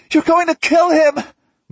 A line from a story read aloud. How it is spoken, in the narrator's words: Molly shrieks